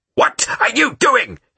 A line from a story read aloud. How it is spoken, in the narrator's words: he shouted